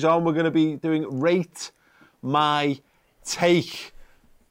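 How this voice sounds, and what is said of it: Very slow, drawn-out speech. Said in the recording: “I said it so slowly”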